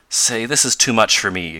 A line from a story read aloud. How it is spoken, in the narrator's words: exclaimed Tom